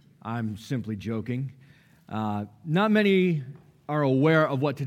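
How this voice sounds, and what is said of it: Usual voice. Nothing is said of it.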